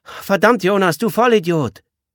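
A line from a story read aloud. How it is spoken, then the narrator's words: Girl calling from background. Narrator (German): Das tätowierte Mädchen rief aus dem Hintergrund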